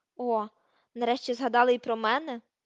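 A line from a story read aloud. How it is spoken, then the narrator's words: Grumbling. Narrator (Ukrainian): буркнув Рон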